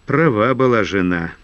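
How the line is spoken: Heavy sigh. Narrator (Russian): тяжело вздохнул Крахмалев

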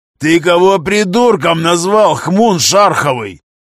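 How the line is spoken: Roared. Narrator (Russian): взревел Гремило

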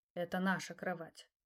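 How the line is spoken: Quiet correction. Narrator (Russian): тихо поправил он меня

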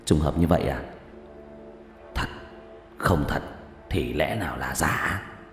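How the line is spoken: Muttering. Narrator (Vietnamese): lẩm bẩm

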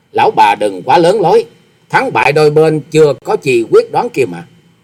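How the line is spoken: Sneering. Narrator (Vietnamese): Hoa Sĩ Kiệt cười khẩy nói

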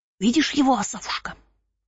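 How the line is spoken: Whisper in ear. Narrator (Russian): зашептал он мне прямо в ухо

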